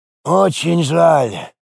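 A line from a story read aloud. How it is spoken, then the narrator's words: Sighing. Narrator (Russian): Рифат вздохнул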